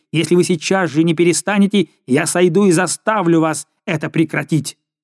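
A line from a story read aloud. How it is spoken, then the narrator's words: Furious shout. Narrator (Russian): барон крикнул в бешенстве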